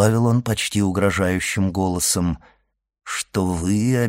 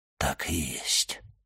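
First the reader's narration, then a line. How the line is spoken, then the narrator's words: Whisper, abbot. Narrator (Russian): прошептал аббат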